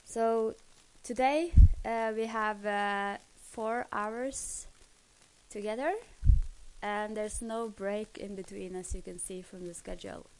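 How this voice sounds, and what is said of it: Voice rough from a cold. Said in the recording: “my voice is a little bit bad today because I have a cold”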